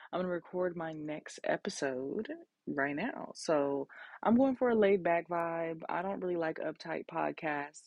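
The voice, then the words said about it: Raspy late-night voice. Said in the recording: “My voice is raspy because it's literally 12:13 a.m.”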